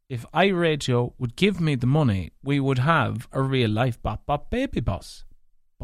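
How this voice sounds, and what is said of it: Mixed northwest Irish accent. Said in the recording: “this mutt of an accent ... not having a true Leitrim accent ... a mix of primarily Donegal, so primarily Leitrim. Then the next biggest mix would be Donegal. Then there'd be a spicen of Sligo, and there'd be a spicen of Fermanagh. Hence why you have that accent.”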